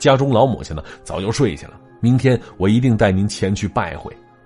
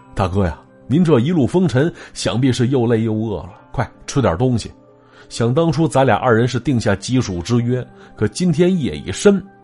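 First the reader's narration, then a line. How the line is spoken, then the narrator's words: Smiling, warm. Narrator (Chinese): 袁博满脸笑容的说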